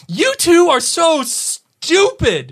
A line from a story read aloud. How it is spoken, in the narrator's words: she shouted, tears splashing down in her front